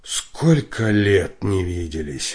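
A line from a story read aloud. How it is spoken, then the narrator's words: Sighing, tearful. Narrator (Russian): вздохнул он и прослезился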